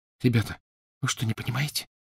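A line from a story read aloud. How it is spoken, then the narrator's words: Whispered. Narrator (Russian): прошептала Гермиона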